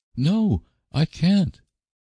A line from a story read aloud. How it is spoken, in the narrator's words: exclaimed Anne desperately